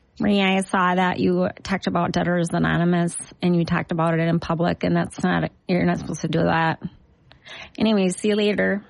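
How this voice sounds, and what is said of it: Duluth Minnesota accent. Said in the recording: “I can do that accent. ... I can do a Duluth because that's where I'm from.”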